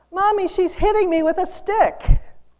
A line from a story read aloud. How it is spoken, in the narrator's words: the child yells